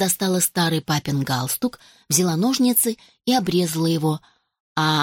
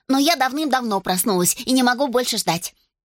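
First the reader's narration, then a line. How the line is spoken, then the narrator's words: Rapid chatter. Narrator (Russian): затараторила она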